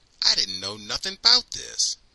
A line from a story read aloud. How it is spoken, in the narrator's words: says angrily